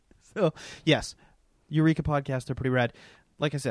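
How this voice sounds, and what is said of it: Usual voice. Nothing is said of it.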